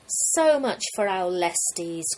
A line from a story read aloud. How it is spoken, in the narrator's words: cried Messapus